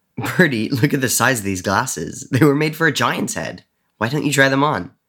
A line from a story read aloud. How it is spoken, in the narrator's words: Charlie giggled